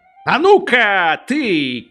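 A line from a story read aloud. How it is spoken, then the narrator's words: Shout. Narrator (Russian): крикнул он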